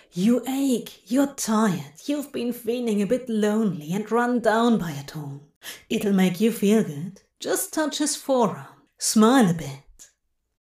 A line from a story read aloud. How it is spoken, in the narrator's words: the chemicals in his brain, the already fired synapses, whispered